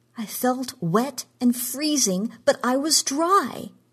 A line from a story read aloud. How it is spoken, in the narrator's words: she cried